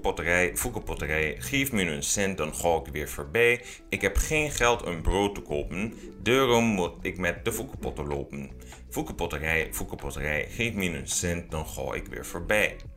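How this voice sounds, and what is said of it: Weak put-on Achterhoek Dutch accent. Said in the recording (Dutch): “zij hebben een accent. Dat kan ik niet nadoen ... Dat is geen goed Achterhoeks accent, maar om een idee te geven werkt het wel.”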